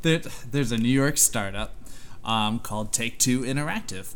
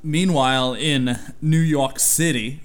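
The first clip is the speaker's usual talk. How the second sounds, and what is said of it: Poor put-on New York accent. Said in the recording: “that was bad accent. You live here. Get it right.”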